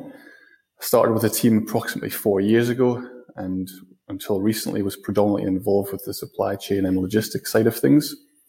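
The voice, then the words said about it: Scottish accent. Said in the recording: “Hopefully I haven't lost too much of my accent, so you can probably still tell that I'm from Scotland.”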